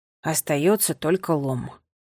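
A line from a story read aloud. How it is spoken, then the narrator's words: Muttered. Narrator (Russian): пробормотал он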